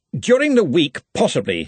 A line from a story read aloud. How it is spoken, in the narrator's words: he snapped